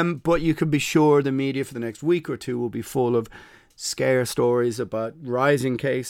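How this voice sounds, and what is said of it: Usual voice. Nothing is said of it.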